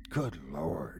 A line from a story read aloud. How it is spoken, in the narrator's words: he whispered to himself